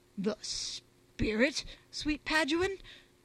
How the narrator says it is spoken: faltered Bungie, visibly quailing

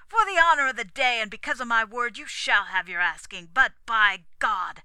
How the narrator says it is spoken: he added through his teeth

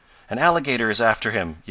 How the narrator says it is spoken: yelled Ned

